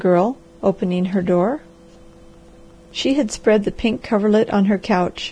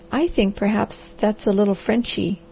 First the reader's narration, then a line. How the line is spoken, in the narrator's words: she said